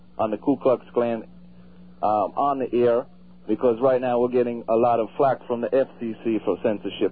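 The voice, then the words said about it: Mixed Southern and Jamaican accent. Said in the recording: “What do you think of this guy's accent?... It sounds sort of like an imitation of, a combination of... A southern accent and a Jamaican accent... This guy definitely does sound Jamaican”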